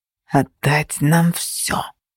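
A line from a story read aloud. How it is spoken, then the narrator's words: Hissed. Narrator (Russian): зашипели наши недавние союзники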